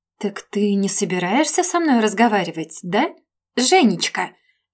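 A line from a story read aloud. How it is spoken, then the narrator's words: Snide question. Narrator (Russian): Ехидно поинтересовалась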